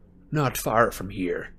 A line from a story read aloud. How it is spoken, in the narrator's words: grunted Moody